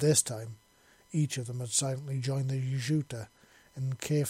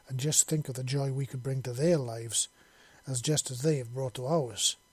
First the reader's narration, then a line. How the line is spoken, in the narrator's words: the second queen said softly